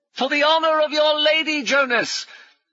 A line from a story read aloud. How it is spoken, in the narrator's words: Brummond shouted